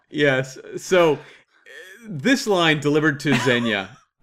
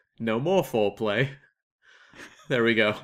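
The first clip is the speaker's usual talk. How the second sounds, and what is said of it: Poor put-on British accent. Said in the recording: “That's my horrible British accent. Embarrassing. ... Atrocious. ... That was my Kevin Costner British accent.”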